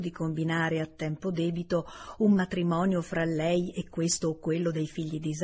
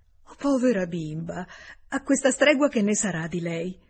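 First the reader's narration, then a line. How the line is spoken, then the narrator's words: Exclaiming. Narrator (Italian): esclamò Emma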